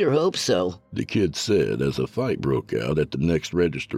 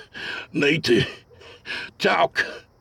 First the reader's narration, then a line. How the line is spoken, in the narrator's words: Preston wheezed